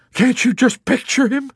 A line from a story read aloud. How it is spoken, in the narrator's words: He exclaimed with amazement